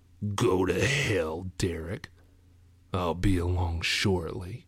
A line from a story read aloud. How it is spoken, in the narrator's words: in that deep voice he did not recognize, he said